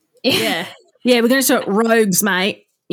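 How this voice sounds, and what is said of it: Put-on Australian accent. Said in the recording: “How can I say it more Aussie?”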